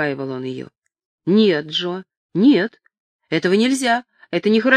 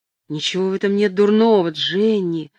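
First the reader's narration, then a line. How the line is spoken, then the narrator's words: Insinuating whisper. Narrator (Russian): вкрадчиво нашептывал он ей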